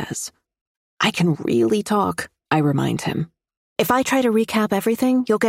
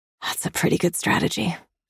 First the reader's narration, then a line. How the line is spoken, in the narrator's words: I whisper happily